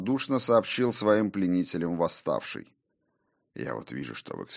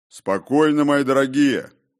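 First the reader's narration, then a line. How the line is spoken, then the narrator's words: Deep bass voice. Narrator (Russian): пробасил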